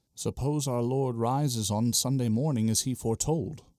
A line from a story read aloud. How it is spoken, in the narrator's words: James says